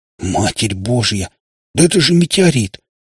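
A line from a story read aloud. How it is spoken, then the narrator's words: Trembling exclamation. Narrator (Russian): дрожащим голосом воскликнул Скворец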